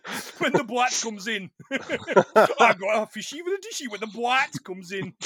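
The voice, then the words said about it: Put-on Geordie accent. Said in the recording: “I should be doing this in the accent ... he's a posh Geordie”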